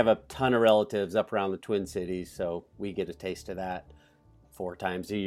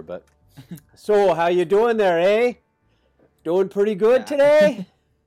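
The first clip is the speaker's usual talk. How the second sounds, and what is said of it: Put-on Minnesotan accent, long O's. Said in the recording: “I like the accent. ... You have to make your O's long if you're talking Minnesota. ... Minnesotan accent”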